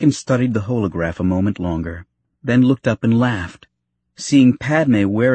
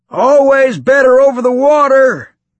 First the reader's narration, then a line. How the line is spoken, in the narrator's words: he shouted in his gruff voice, against the wind and the noise of the speeder